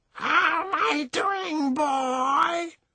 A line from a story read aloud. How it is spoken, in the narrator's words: she shouted